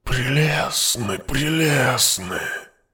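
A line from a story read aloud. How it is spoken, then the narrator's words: Purring. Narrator (Russian): Мурлыкал ткач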